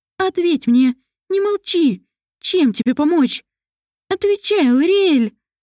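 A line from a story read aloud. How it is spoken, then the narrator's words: Angry shouting. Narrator (Russian): Мэриэль кричала и ругалась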